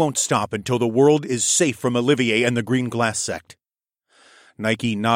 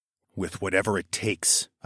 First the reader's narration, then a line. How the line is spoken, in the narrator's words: I answered in a low voice